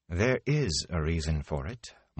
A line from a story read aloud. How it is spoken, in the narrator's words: Moraine said calmly